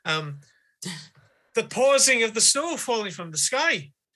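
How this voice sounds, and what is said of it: Put-on Irish accent. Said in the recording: “that's hard to say in an Irish accent.”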